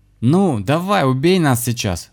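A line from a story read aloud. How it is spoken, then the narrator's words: Sudden shout after silence. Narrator (Russian): закричал молчавший ранее Михаил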